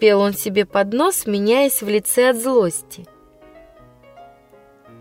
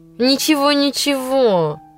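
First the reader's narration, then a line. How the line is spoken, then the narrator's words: Grumbling. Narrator (Russian): ворчал Жорж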